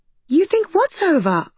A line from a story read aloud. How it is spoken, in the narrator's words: I said cheerfully